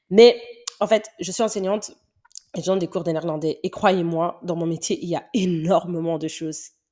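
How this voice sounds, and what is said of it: Belgian French accent. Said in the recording (French): “mon accent belge. Ouais, il est vraiment belge.”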